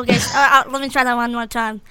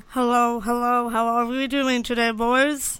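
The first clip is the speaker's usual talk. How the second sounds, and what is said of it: Deep voice imitating another person. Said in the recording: “She's going a deep voice.”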